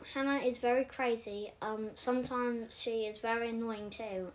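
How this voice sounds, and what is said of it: Put-on English accent. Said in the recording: “Say something that you think about me in an English accent.”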